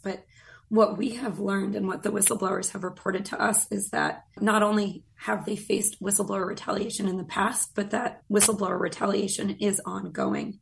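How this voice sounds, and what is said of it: Voice strained by a cold. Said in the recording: “excuse my voice, by the way, I'm fighting a summer cold”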